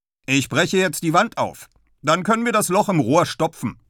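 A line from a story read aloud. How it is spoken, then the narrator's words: Calling out. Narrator (German): ruft er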